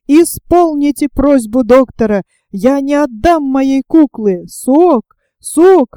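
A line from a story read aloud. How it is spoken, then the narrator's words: Bursting into sobs. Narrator (Russian): разрыдался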